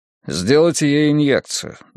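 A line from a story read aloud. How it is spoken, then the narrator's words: Flat emotionless voice. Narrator (Russian): бесстрастным голосом произнес он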